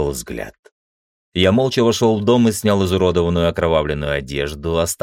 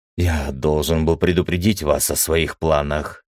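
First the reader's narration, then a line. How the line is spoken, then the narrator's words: Fearful mumble. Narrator (Russian): заметным страхом в голосе пробормотал он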